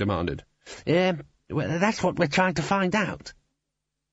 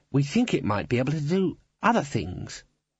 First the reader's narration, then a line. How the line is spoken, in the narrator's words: Ponder sighed